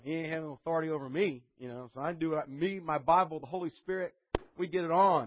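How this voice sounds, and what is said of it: Weak put-on redneck accent. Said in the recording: “that's kind of a redneck accent. And I'm not a good redneck”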